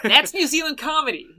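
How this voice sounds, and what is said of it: Put-on American accent. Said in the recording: “They'll do it with the American accent.”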